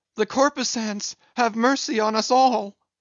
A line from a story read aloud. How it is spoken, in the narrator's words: immediately shifting his tone, he cried